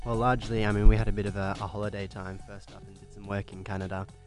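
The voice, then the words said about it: Australian accent. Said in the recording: “Love the accents ... from Australia”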